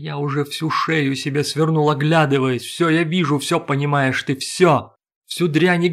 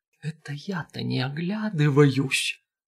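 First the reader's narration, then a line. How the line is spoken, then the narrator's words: Whispered shout. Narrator (Russian): шепотом заорал Шанур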